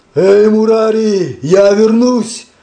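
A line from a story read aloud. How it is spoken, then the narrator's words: Thunderous shout while running. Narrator (Russian): И Господь Читания, убегая, закричал громовым голосом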